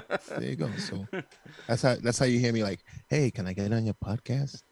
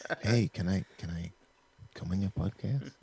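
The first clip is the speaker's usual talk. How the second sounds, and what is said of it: Put-on humble, meek voice. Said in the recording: “In my humble voice ... Put on my humble voice”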